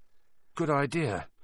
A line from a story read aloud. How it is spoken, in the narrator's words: said Ron nervously